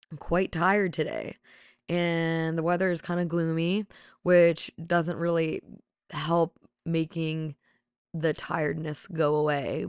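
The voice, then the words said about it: Raspy voice. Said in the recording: “my raspy voice. I do have a naturally raspy voice”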